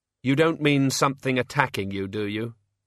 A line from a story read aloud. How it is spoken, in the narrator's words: she said flatly